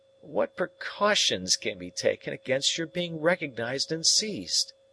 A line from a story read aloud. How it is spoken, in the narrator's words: I resumed, half-groaning